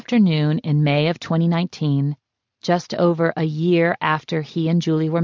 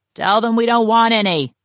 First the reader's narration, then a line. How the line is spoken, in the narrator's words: Saul had yelled from his bed in the living room